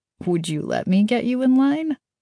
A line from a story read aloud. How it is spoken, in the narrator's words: Kaz asked with a laugh